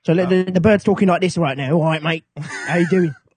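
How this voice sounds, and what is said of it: Put-on cockney British accent. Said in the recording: “speaks in a British accent ... I'm a cockney bird. I'm going to talk like this.”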